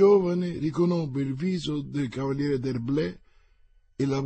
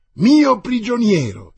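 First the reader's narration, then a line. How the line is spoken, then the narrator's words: Exclaimed. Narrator (Italian): esclamò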